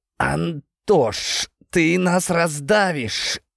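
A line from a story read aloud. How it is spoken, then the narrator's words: Strained hiss. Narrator (Russian): кое-как прошипел я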